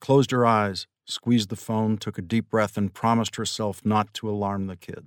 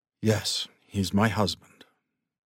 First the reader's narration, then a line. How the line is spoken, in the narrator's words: Pat said calmly